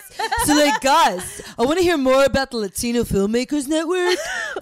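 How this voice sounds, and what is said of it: Put-on California accent. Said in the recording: “I could talk in my California voice.”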